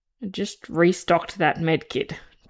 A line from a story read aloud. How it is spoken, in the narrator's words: Joseph growled